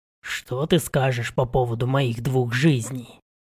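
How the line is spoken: Hissing undertone. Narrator (Russian): произнес вполголоса, но вышло какое-то шипение

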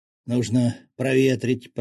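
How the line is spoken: Hoarse wheeze. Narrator (Russian): прохрипел он

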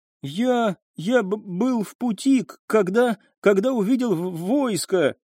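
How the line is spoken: Frightened, confused stuttering babble. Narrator (Russian): испуганно и растерянно заикаясь, пролепетал он

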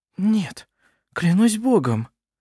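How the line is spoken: Whispering. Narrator (Russian): прошептала она

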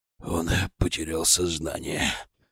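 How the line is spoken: Hoarse old man. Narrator (Russian): хрипло сказал дед

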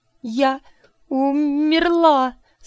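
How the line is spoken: Sobbing, struggling to speak. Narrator (Russian): Сквозь накатившие рыдания с трудом выговорила я

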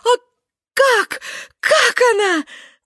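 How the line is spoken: Shouting. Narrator (Russian): закричала

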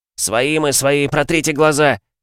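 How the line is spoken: Shouting. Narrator (Russian): закричал Спиц

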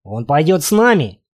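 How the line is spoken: Repeated, plain. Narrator (Russian): опять повторил мужчина

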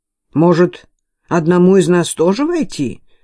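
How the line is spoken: Uncertain suggestion. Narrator (Russian): неуверенно предложил второй стражник

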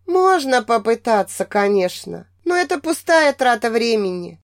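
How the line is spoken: Muffled, from a distance. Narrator (Russian): глухо донеслось до меня от кровати подруги

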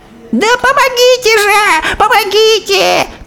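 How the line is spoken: Shrill squeal over shouting. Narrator (Russian): Перекрывая крик мужа своим визгом, миссис Дженкинс уже явно обращалась

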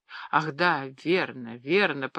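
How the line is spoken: Confused mutter. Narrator (Russian): пробормотал … с растерянным видом

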